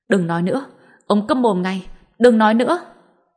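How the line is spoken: Loud shout. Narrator (Vietnamese): Y Vân hét lớn

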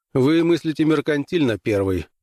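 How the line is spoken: Amused snort. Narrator (Russian): хмыкнул Граймс

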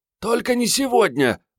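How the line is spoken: Pleading. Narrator (Russian): взмолилась Мариетта

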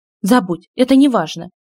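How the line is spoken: Sharp. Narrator (Russian): резко сказала Рена

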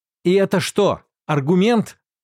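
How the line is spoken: Loud. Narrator (Russian): громко сказал Рансибл

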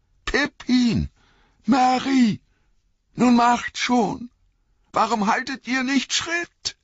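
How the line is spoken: Call. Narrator (German): rief er

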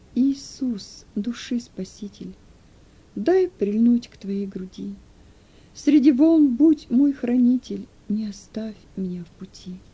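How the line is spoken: Mournful faint singing. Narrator (Russian): Едва шевеля губами, он скорбным голосом запел

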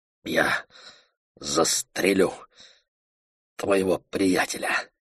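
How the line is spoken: Strained, forced out. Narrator (Russian): выдавил

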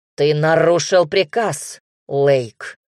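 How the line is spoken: Rough growling voice. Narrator (Russian): грубый, рычащий голос императора

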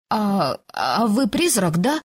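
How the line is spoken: Timid question. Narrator (Russian): робко поинтересовалась я

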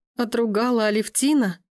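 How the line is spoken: Hysterical laughter. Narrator (Russian): Девушка истерически расхохоталась

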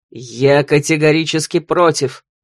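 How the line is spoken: Growl. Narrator (Russian): рычал Ролан

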